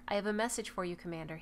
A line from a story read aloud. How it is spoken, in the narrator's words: he said